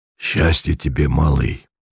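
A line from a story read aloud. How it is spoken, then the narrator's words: Hoarse voice. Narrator (Russian): сказал человек с хриплым голосом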